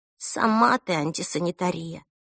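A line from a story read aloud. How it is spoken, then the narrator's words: Muttered. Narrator (Russian): пробормотала Эльса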